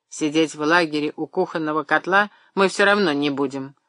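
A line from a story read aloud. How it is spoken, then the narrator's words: Angry remark. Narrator (Russian): сердито заметил Павел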